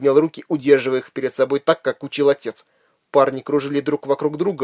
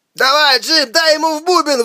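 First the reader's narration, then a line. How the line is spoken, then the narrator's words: Shouted from crowd. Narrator (Russian): выкрикнул из толпы Омер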